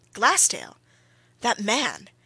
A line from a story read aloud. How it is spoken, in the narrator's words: exclaimed Bryce